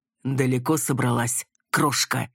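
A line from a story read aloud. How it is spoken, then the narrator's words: Hissed into ear. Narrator (Russian): прошипел он в ухо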